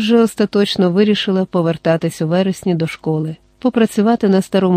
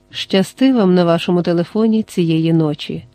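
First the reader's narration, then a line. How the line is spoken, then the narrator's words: Gentle. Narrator (Ukrainian): лагідно сказав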